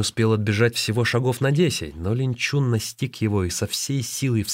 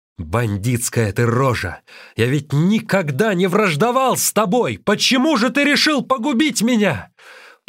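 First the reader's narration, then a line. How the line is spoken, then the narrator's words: Shouted. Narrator (Russian): закричал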